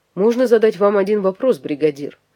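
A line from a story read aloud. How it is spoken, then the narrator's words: Plain. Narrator (Russian): спросил Франсуа Дарвьер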